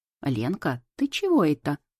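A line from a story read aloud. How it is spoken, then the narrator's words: Indignant grandmother asking. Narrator (Russian): возмущенно спрашивает бабуля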